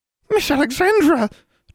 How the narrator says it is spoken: Triss practically shrieked

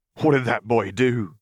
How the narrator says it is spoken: he demanded before turning to a snarl

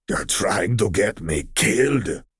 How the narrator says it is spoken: Crosshair hissed, trembling in fury

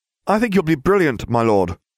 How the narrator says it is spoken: the younger one blurted out

